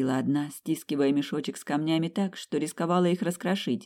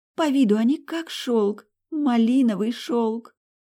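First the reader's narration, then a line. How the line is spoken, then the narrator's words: Loudest exclamation, woman healer. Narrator (Russian): громче всех воскликнула третья лекарка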